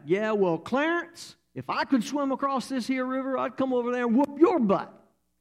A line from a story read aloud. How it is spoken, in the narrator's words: Rufus would yell back